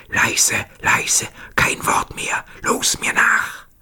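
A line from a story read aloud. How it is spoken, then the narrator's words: Whisper to companions. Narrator (German): flüsterte seinen Kameraden zu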